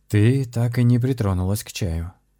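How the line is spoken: Soft reproach. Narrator (Russian): мягко упрекнул ее шаман

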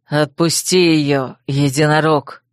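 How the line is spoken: Growled. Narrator (Russian): рыкнул Койл

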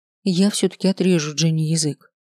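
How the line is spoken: Breathless exhale. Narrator (Russian): выдохнула

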